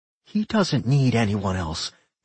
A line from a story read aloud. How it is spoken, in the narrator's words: Millie said coldly